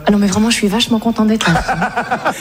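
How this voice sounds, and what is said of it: Put-on Parisian French accent. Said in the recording (French): “je parle un peu à la parisienne comme ça ... Pas mal, tu le fais bien, hein.”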